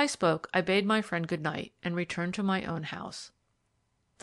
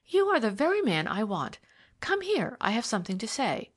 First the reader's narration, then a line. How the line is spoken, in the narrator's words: cried Geraldine Debrett eagerly